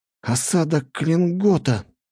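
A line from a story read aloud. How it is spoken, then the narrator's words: Exclamation of sudden realization. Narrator (Russian): воскликнул Фригейл, осененный внезапной догадкой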